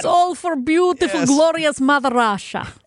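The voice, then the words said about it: Put-on Russian accent. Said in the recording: “with the accent, though”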